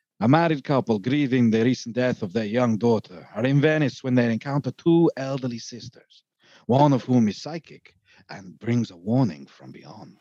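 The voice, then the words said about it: Attempted Italian accent, sounding Spanish. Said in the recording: “I can't do an Italian accent. This will come across a bit like Antonio Banderas ... this is probably going to sound more Spanish than Italian”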